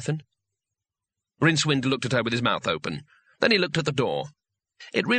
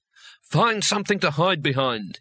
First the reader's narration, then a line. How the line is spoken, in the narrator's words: he barked, with his voice shaking only slightly